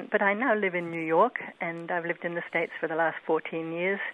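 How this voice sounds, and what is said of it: Mixed English-Australian accent. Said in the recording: “as people will hear from your accent, that you were not born in the United States ... I was actually born in England, and then my family went to Australia when I was 10. So I've got a kind of mixed accent.”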